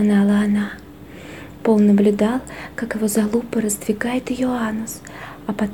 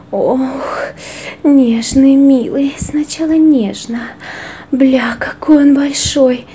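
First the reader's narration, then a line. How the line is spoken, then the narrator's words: Moaning. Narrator (Russian): стонала Кара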